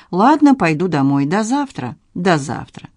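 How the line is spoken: Dry. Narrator (Russian): Надин сухо сказала

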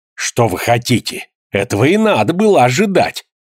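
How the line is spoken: Rude speech. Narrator (Russian): Грубо заговорила

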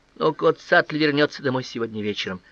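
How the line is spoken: Moaning. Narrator (Russian): застонала смешинка

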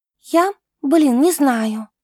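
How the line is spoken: Uncertain sigh. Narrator (Russian): неуверенно вздохнула она

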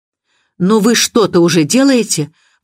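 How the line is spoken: Exclaiming. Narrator (Russian): воскликнула миссис Ривз

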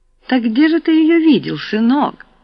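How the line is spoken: Sweet-voiced question. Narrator (Russian): сладким голосом спросила Люцина

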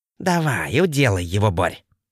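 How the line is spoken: Hissed. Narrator (Russian): прошипел Щербатый

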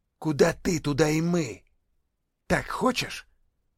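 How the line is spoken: Hissing. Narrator (Russian): Он зашипел

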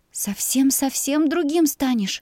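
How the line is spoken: Quiet, heavy sigh. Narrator (Russian): тихо произнесла я, тяжело вздыхая

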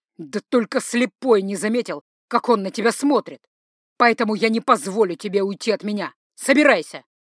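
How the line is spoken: Commanding voice. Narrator (Russian): командным голосом проговорил он

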